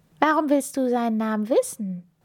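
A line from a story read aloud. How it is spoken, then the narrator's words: Plain. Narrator (German): fragte Raja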